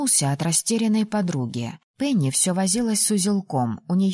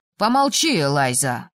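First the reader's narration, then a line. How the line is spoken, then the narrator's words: Barked. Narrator (Russian): Асакура рявкнет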